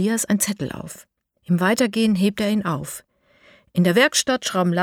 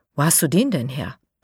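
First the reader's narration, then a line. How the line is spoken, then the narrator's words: Plain. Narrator (German): fragt Lara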